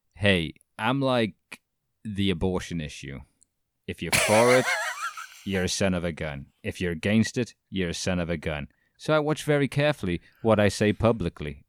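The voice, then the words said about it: Imitates another person's voice. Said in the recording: “great Billy Mitchell impression”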